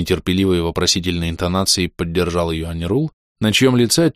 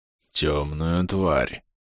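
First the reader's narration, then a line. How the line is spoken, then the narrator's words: Hoarse repetition. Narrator (Russian): хрипло повторил Аньрул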